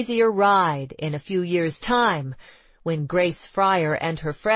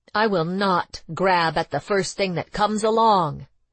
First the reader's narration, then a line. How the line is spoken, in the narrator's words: exclaimed Grace fiercely